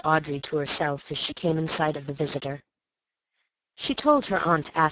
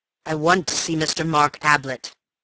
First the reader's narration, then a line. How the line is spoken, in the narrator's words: he growled